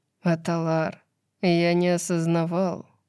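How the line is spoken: Weary hoarse rasp. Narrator (Russian): устало прохрипел очнувшийся от забытия Баксиан

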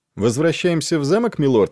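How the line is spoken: Plain. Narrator (Russian): спросил Джори

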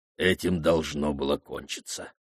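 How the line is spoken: Curt mutter. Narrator (Russian): буркнул маман Гинденг

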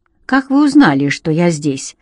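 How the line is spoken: Curious question. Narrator (Russian): поинтересовался я

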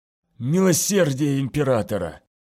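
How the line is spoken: Hiss. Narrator (Russian): прошипел он

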